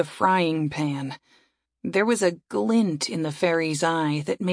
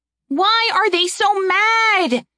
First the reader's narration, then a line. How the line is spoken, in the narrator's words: Eren shouted it at Saria